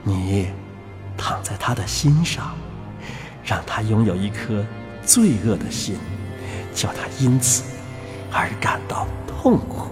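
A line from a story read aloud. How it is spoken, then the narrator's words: Low voice. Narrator (Chinese): 他低声的对第三只说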